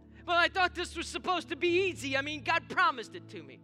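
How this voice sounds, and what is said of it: Sudden put-on accent. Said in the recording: “I don't know where that accent came from.”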